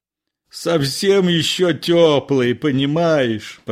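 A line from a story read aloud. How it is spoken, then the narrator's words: Moaning. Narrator (Russian): простонал Илларион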